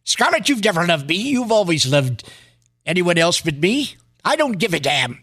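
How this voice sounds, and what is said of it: Clark Gable impression. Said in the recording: “That was my impression of Clark Gable. Not too ... good. Pretty ... good.”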